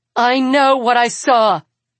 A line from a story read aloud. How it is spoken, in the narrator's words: Arsinoe snaps